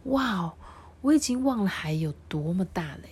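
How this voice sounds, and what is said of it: Soft, quiet voice. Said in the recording (Chinese): “小声的说”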